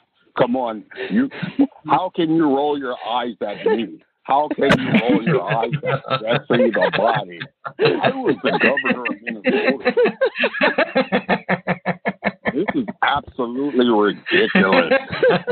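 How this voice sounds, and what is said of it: Imitates another person's voice. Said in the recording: “That's my best Jesse impression,”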